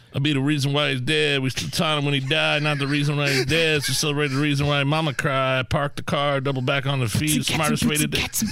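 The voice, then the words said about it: Southern country Matthew McConaughey mumble rap. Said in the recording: “I was going for the mumble rap version of that. ... Going for Matthew McConaughey because it sounded a little southern country.”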